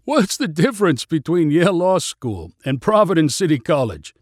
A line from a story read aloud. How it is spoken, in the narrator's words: Raj asked with a laugh